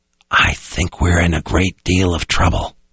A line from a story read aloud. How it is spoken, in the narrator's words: he whispered to no one in particular